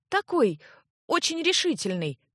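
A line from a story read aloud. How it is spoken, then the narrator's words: Unhappy strained, then blurted. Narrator (Russian): Несчастно кривя губы, выдавила Ирсана и вдруг, отважившись, выпалила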